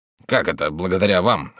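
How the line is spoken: Locksmith mumbling. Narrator (Russian): бормотал слесарь

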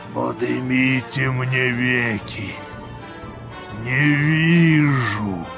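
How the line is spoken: Deep subterranean voice. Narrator (Russian): сказал подземным голосом Вий

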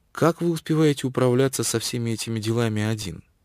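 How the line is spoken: Gentle, exquisitely courteous voice. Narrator (Russian): ответил нежным голоском с самой изысканной любезностью

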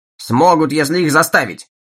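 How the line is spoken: Snapping retort. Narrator (Russian): огрызнулся Чалмерс

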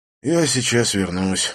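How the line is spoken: Sigh. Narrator (Russian): вздохнул я

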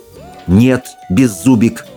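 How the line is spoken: Very firm declaration. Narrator (Russian): самым твердым голосом заявил Икинг

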